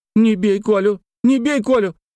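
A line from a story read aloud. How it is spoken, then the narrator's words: Repeated shouting. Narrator (Russian): Она все кричала Олегу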